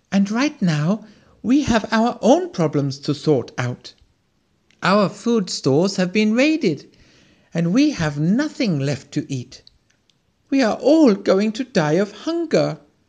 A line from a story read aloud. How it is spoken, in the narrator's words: exclaimed the squirrel